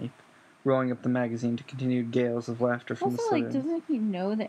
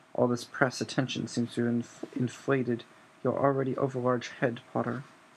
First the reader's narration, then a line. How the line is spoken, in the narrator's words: Snape said quietly